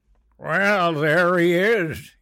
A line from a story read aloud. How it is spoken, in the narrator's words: he slurred